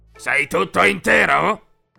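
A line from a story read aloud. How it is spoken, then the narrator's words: Grumbling question. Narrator (Italian): chiese brontolando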